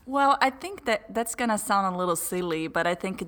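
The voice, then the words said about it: Noticeable foreign accent. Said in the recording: “as you're going to note this by my accent”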